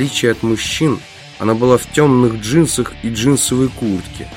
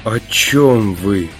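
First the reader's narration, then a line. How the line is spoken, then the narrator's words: Dejected, sinking voice. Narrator (Russian): упавшим голосом спросила Наташа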